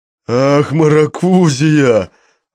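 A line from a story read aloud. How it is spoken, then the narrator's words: Roar. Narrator (Russian): взревел Мишка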